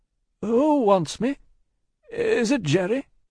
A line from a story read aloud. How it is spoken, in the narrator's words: with mildly quavering speech